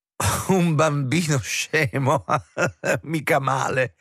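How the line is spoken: Laughing. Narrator (Italian): rise Kröge

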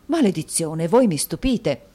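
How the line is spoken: Exclaiming. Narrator (Italian): esclamò Mantalini

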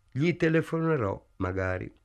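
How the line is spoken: Plain. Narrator (Italian): disse

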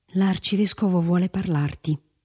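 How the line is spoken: Whisper. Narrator (Italian): sussurrò Felipe

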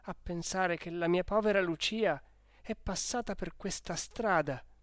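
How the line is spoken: Exclaiming. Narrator (Italian): esclamò

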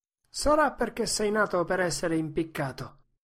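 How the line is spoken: Laughing innkeeper. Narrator (Italian): rise l'oste

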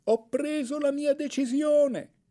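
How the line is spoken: Echoing full-voiced shout. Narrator (Italian): a tutta voce, tanto che ne echeggiarono gole e dirupi, gridai

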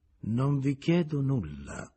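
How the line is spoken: Plain. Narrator (Italian): gli disse

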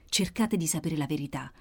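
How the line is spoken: Whispered in ear. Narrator (Italian): sussurrò all'orecchio

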